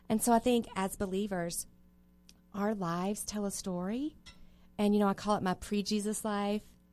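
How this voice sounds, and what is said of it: Slight Southern US accent. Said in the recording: “do I detect just a, when, when you did that, just pre Jesus, do you have an accent? ... I might have a little bit of a. ... Are southern, you a Southern belle? ... Mississippi.”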